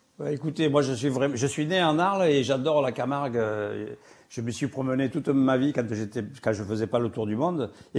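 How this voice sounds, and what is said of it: Speaker's own regional French accent. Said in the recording (French): “on rajoute votre accent en plus”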